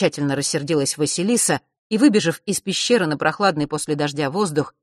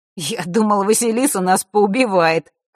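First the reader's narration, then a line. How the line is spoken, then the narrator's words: Snorting. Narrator (Russian): хмыкнул на это Маар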